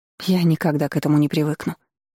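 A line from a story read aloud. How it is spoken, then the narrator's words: Breathed out. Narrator (Russian): выдохнула Вероника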